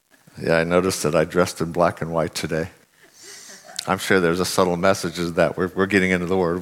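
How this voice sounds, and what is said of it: Unusually deep voice. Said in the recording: “Wow, I have a deep voice today.”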